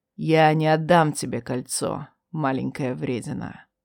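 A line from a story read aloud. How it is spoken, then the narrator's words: Quiet, close to ear. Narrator (Russian): негромко произнес над моим ухом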